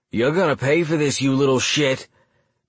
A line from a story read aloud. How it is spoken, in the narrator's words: bellowed JJ